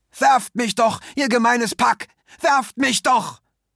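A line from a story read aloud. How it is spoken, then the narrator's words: Shouting. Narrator (German): schrie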